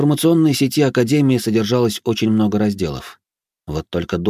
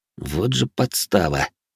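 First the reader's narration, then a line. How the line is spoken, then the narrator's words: Displeased mutter. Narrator (Russian): недовольно буркнул я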